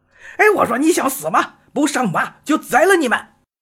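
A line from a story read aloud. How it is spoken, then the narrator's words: Angry cursing. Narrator (Chinese): 金兵们不觉大怒，怒骂道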